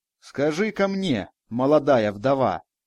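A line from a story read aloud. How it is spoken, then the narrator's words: Stern old woman. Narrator (Russian): строго произнесла старуха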